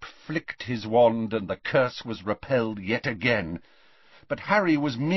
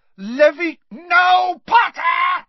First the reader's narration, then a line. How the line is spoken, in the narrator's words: screamed Snape